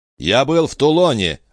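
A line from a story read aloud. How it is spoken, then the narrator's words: Sharp interruption. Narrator (Russian): резко оборвал его Бонапарт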